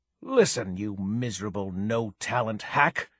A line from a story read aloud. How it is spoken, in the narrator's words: she hissed